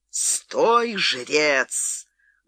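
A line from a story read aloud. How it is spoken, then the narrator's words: Thunderous shout. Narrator (Russian): громовым голосом закричал Фрэнсис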